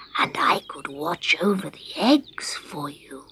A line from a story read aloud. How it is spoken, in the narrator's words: whispered Scarecrow